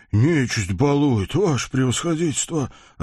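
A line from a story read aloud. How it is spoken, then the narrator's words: Sighing. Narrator (Russian): вздохнул купец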